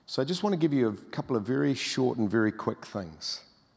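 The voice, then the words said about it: New Zealand North Island accent. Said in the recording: “my North Island accent”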